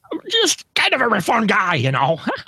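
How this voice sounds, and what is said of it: Bad Bobcat Goldthwait impression. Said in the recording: “My horrible Bobcat Goldthwait impression.”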